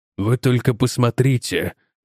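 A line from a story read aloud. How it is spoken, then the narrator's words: Whisper. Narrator (Russian): прошептал майор Силлер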